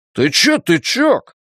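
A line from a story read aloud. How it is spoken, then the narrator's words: Shouting again. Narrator (Russian): снова крикнул Ллойд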